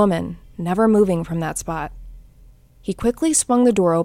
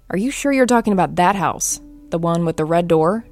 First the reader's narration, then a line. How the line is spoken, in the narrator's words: she asked